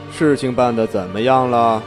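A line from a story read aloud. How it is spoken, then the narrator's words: Flat, indifferent. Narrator (Chinese): 魏凌风 淡淡道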